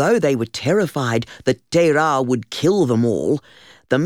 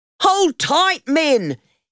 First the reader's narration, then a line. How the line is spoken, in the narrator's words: he shouted